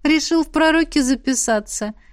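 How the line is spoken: Ticklish giggle. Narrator (Russian): хихикнула, не выдержав щекочущих прикосновений

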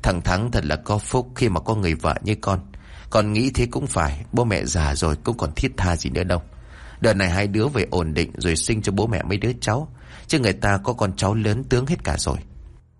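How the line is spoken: Old woman, trembling voice. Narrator (Vietnamese): Bà Lan run rẩy nói

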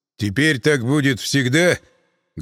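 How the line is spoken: Muffled question from behind. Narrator (Russian): глухо спросил из-за моей спины Мирон

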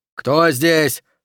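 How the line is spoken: Shouting. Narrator (Russian): прокричал Окси

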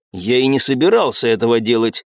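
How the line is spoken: Cold interruption. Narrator (Russian): холодным тоном перебил ее Лерсон

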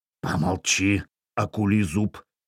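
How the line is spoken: Quiet. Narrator (Russian): негромко произнес Эйн Гусь

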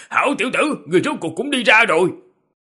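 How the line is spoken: Laughing loudly. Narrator (Vietnamese): cười lớn, nói

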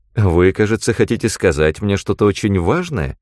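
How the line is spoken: Mocking. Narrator (Russian): сказала насмешливо

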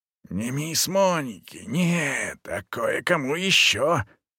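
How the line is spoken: Breathless defiant whisper. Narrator (Russian): зашептала она с вызовом, как только смогла отдышаться

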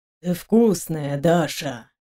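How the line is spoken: Hoarse rasp. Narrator (Russian): прохрипел он

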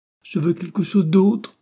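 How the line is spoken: Sobbed. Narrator (French): sanglota Jenny

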